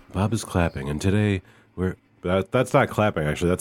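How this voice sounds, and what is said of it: Usual voice. Nothing is said of it.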